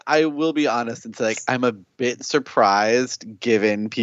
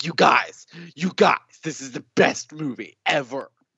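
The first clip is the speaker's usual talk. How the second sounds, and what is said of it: Imitates another person's voice. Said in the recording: “It's a good impression”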